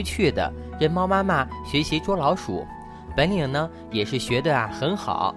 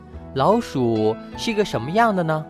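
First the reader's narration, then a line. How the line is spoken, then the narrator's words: Plain. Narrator (Chinese): 猫妈妈说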